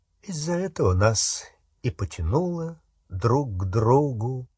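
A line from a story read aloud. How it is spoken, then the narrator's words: Quiet. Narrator (Russian): тихо сказал он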